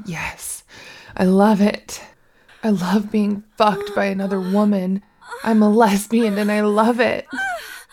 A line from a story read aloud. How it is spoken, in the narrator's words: I moaned ... said